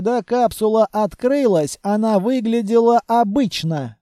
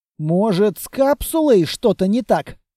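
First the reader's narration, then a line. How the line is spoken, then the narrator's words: Plain question. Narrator (Russian): спросил грязный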